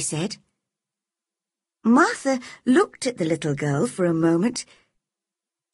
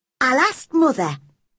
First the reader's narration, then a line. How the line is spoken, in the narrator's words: said